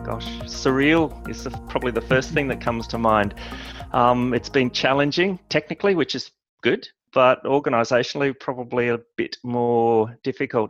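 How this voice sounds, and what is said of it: Australian accent. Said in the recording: “you've got a bit of an accent there ... I'm born and raised in Australia”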